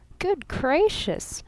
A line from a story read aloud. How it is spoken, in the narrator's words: giggled Miss Von Eaton